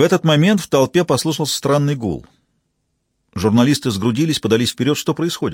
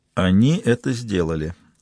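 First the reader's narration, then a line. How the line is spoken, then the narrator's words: Muttered. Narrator (Russian): пробормотал Стилман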